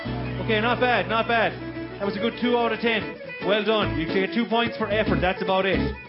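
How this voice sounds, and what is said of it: Thick accent. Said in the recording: “Is the accent too thick? No, it's okay.”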